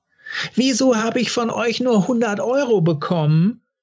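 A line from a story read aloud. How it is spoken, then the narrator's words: Sudden scream. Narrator (German): schrie Denise plötzlich Martina Wolkenschläger an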